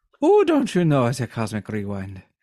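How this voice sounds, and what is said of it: Put-on Irish accent. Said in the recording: “I like saying rewind in an Irish accent. Ooh, I can't only do an Irish accent if I start with, ooh.”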